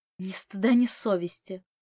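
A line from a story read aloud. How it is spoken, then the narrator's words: Hissed. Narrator (Russian): прошипел он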